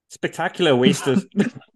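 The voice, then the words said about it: Failed Australian accent, sounds Irish. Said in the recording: “this is all going to be done in an Australian accent ... Which I cannot do ... I went Irish.”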